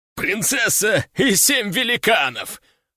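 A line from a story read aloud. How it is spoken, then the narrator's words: Group laughing. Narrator (Russian): расхохотались они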